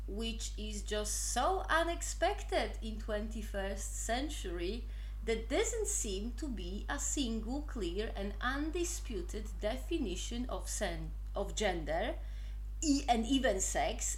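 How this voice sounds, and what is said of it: Polish accent in English. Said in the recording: “I am not native English speaker, as you can obviously say from my mighty Polish accent, which apparently is quite cute.”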